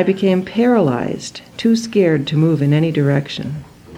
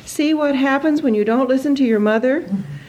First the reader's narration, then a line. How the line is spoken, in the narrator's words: shouting